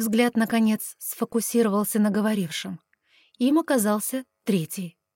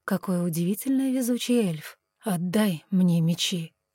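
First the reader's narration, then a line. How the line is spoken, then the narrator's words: Calm request. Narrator (Russian): спокойно попросил он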